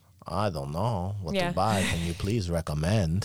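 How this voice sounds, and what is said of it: Close impression of a customer. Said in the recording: “That's exactly how he sounds. ... You do a very good impersonation.”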